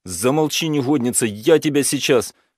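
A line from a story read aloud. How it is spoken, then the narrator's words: Shouting. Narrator (Russian): закричал Лёня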